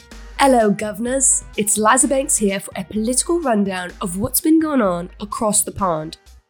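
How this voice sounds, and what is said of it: Put-on British accent. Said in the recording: “I'll stop with the accent”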